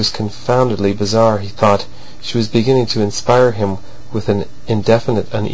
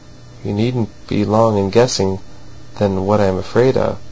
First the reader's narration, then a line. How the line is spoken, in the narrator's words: she continued in a bitter and somber murmur